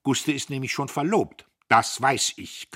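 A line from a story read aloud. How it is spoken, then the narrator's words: Growl. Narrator (German): knurrte Dietrich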